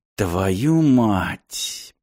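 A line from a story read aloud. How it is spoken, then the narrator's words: Muttering. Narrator (Russian): пробормотал Мартин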